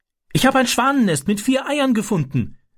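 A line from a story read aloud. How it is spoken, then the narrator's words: Calling out. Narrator (German): rief er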